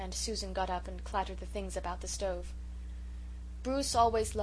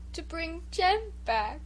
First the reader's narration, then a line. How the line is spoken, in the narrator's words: sobbed Bruce